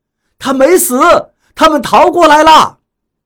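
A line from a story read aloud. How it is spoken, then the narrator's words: Distant shouting. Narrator (Chinese): 虽然还隔着一点距离，但是我能听到他们喊着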